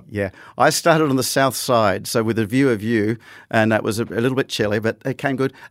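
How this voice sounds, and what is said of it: Put-on Scottish or Cornish accent. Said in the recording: “my accents are going all over the place here because, as I said, I'm practicing for this role and I haven't worked out whether I'm going to be Scottish or Cornish”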